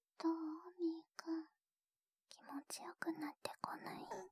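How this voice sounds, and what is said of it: Whispering close to the ear. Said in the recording (Japanese): “耳元でこうやってささやかれる方が好きなのかな。”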